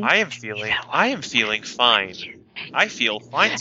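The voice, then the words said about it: Flat robotic character voice. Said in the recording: “He sounds like a robot.”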